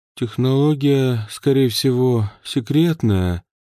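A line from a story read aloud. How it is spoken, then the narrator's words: Drawling. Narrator (Russian): протянул Кейс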